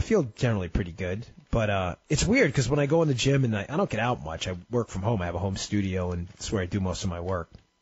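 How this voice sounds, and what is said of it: Sniffly congested voice from a cold. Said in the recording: “tell by my voice, a lot of people in my sniffling. I've got a little bit of a cold.”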